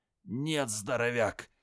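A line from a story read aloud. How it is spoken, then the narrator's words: Through gritted teeth. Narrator (Russian): процедил он сквозь зубы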